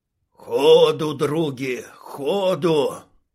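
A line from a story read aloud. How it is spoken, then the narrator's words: Wheezing bumblebee. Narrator (Russian): прохрипел шмель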